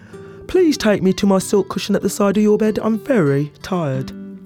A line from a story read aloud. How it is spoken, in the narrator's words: The frog yawned and stretched and said